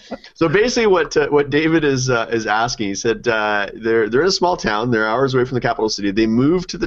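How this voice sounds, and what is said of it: Usual voice. Nothing is said of it.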